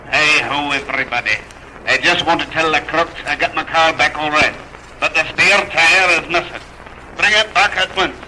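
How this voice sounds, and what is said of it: Speaks in a put-on dialect. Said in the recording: “you can tell from my dialect”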